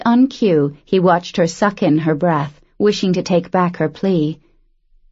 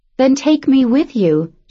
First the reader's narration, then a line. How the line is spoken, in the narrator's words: she blurted out